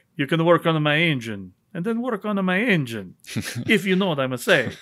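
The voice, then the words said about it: Bad put-on Italian accent. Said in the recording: “that was a really bad Italian accent”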